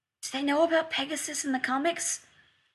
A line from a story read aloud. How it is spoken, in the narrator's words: John whispered